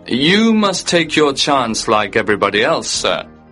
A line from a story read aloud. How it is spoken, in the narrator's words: the man said coldly